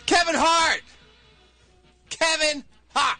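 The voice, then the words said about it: Yelling a name loudly. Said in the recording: “Why are you yelling? ... Kevin Hart yells a lot!”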